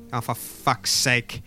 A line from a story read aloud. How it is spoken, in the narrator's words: she mutters to herself